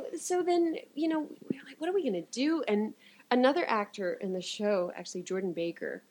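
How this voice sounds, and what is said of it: Usual voice. Nothing is said of it.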